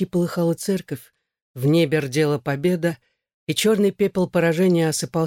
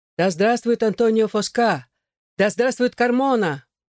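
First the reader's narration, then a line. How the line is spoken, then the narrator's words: Shouted by a crowd. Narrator (Russian): Они кричали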